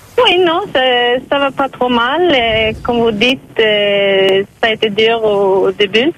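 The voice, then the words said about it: Swedish accent in French. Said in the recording (French): “votre joli accent ... Vous êtes suédoise”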